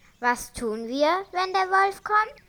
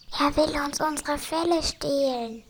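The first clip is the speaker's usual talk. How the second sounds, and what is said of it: Whispering. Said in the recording (German): “flüstert”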